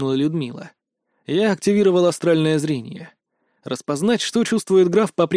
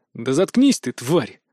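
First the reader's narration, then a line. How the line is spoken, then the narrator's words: Through gritted teeth. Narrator (Russian): процедил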